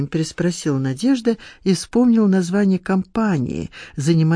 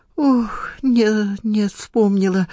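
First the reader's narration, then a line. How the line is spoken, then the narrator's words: Old woman's joyful exclamation. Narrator (Russian): радостно воскликнула старушка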